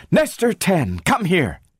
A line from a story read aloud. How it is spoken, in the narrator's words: cried